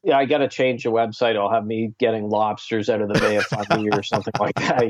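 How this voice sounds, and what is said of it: Eastern Canadian Maritime accent. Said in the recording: “you're from the Maritimes. You got that Eastern Canadian accent.”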